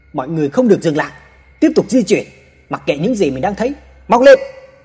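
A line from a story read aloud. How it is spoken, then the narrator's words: Sudden shout. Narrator (Vietnamese): chồng hét lên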